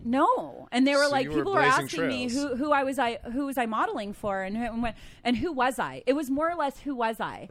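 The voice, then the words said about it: US East Coast accent. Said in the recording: “I'm recognizing your accent, hon. ... East Coast.”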